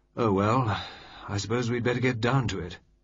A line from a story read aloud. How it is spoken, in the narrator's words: Lord Mayfield said with a sigh